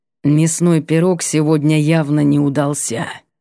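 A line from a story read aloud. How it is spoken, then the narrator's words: Sudden creaky voice. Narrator (Russian): проскрипел неожиданно Арвит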